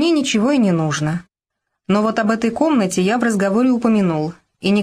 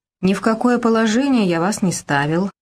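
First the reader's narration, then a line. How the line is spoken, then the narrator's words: Dry objection. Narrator (Russian): сухо возразил Семен Григорьевич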